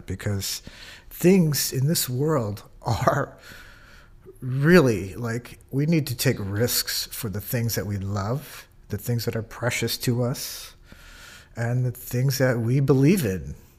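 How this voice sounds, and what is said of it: Emotional, teary voice. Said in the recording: “I'm getting teary-eyed talking about it”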